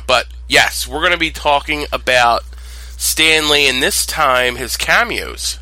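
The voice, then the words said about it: Congested, cold-affected voice. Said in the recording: “I'm suffering from a cold ... my voice is a little crazy right now”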